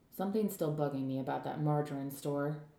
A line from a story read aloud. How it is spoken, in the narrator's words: Rosa muttered